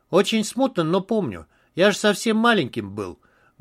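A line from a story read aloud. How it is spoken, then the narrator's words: Sad voice. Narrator (Russian): грустно сказал Иду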